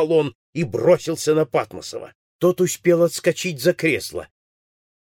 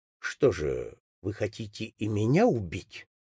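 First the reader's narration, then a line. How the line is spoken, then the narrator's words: Calm. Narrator (Russian): сказал он спокойно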